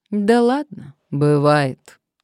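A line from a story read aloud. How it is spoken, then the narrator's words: Good-natured chuckle. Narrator (Russian): издатель добродушно хмыкнул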